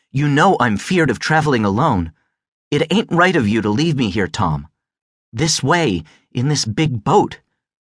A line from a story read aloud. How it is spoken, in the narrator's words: She said then angrily